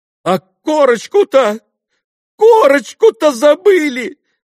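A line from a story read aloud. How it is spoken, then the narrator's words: Sudden terrified exclamation. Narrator (Russian): Вдруг воскликнул он в страшном испуге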